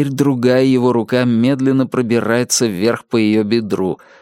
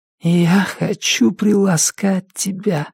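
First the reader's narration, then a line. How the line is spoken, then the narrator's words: Whisper. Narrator (Russian): прошептала Джесси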